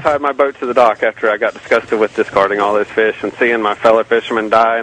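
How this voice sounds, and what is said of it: Strong regional non-Californian accent. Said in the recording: “I may not sound exactly right on the radio... I hope my accent isn't too much for y'all to... We love accents. We get bored with California voices.”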